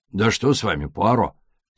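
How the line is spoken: Angry question. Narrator (Russian): сердито осведомился Джеб

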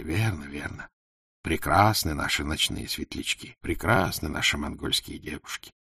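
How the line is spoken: Group whispering. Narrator (Russian): Все ханы шептали

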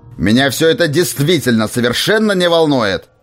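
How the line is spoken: Snapping retort. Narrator (Russian): огрызнулся Уорвик

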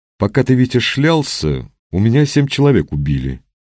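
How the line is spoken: Sad yet peaceable. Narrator (Russian): печально, но неожиданно миролюбиво сообщил Шибанов

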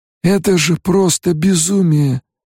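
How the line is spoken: Barely breathed out. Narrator (Russian): еле выдохнул Стилгар

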